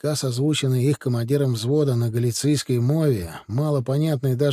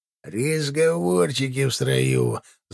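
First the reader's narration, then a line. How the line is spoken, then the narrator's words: Angry doglike growl. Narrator (Russian): злобно рыкнул цепной собакой унтербобель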